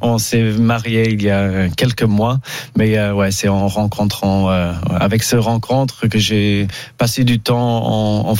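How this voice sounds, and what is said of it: English accent speaking French. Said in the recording (French): “vous avez compris à son accent que ... euh, n'est pas né en France ... Anglais”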